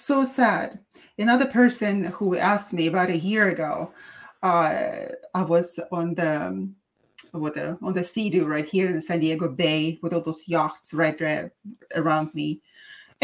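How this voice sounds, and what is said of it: Russian accent. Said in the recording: “where my accent was from, and I said Russian”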